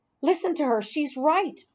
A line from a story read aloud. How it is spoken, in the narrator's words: squeaked